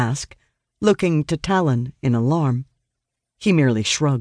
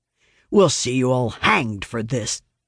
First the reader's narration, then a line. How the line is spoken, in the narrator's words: the soldier growls